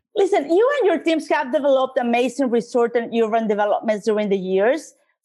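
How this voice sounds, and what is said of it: Latina Spanish-accented English. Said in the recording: “I'm a Latina, so you have to love my accent.”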